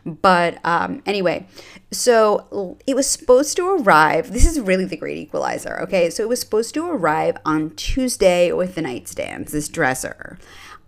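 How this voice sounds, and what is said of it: Congested, slightly nasal voice. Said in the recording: “My nose is clogged a little bit.”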